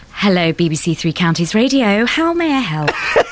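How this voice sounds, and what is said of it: Put-on posh English voice. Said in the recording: “Let's hear them try and do their posh voice ... is the best ... Pretend you're speaking to a guest on the phone ... Sexual.”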